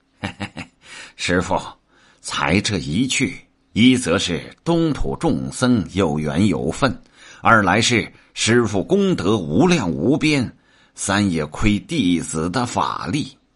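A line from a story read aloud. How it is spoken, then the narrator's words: Laughing. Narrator (Chinese): 行者笑道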